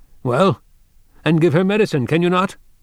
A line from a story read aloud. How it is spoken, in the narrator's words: he shouted out angrily